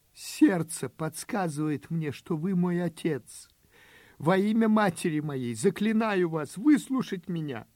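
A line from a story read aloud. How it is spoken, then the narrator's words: Sobbing plea. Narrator (Russian): Рыдая, обратился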